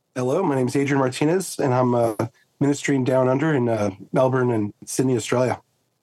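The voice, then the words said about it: American accent. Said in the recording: “you can hear from the accent, I'm originally from the States”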